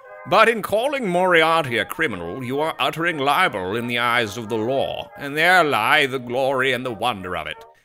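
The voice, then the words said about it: Put-on snobby British accent. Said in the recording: “I will read this in my snobby British accent”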